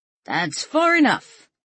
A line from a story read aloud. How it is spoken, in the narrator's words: Kurt heard someone yell out